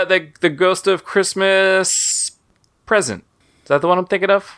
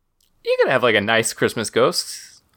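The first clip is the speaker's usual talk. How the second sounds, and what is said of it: Sudden high falsetto voice. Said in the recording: “Whoa. That was a register that you never hit before. ... They hit my falsetto with that.”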